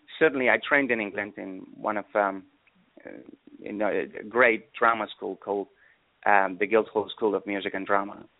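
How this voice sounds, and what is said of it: Slight British-tinged mixed accent. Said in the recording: “I hear a little British accent in there ... my natural accent is a mishmash of all the places where I've been ... I hear a little British in there.”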